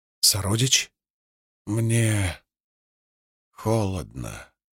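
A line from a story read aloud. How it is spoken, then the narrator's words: Barely audible. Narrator (Russian): прозвучало чуть слышно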